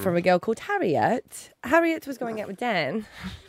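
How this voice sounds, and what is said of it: Put-on British accent. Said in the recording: “my UK accent”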